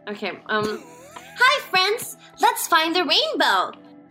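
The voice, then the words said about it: Kids' show character voice. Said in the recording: “do that impression again of of what the Strawberry Mansion a line would be ... controversial kid show”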